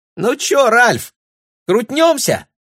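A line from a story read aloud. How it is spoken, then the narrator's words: Squeaky, mouth full. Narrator (Russian): пропищала Мириам, засовывая в рот остатки рожка с мороженым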